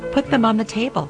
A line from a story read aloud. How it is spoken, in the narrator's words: I said, and my voice had a tremble in it